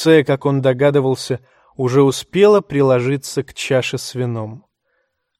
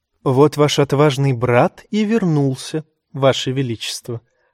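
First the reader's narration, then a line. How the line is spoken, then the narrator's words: Purred. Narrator (Russian): промурлыкала леди Меривезер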